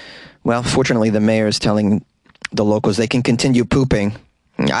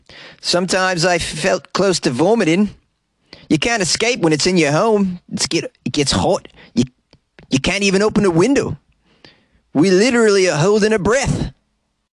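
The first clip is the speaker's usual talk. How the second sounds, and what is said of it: Poor put-on New Zealand accent. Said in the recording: “my New Zealand accent is just getting worse and worse as the story goes on”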